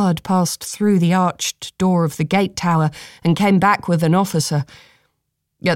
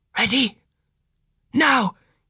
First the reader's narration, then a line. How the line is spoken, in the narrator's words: hissed Clemson